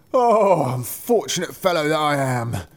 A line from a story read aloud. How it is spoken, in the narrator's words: cried he